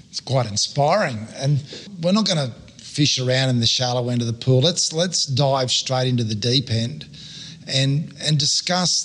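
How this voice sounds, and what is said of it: Australian male accent, slightly croaky. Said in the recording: “you might have picked up by my accent ... and my bit of croaky voice that I'm an Australian male”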